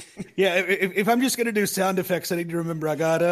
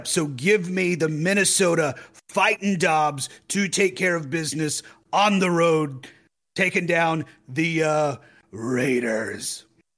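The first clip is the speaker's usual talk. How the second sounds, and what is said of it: Imitates another person's voice. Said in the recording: “That was a good boom impression.”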